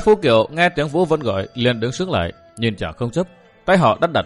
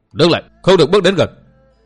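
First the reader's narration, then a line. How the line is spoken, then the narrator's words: Burly man's loud shout. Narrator (Vietnamese): Một gã đại hán lực lưỡng quát lớn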